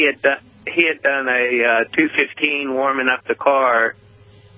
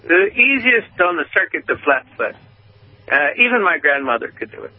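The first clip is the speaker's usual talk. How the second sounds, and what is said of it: Weak put-on Colombian accent. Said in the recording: “I don't do a good Colombian accent.”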